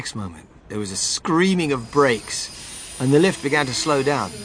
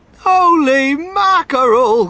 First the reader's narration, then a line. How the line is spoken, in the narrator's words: cried Mr